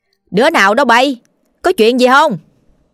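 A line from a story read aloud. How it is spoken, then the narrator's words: Loud question. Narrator (Vietnamese): bà liền lớn tiếng hỏi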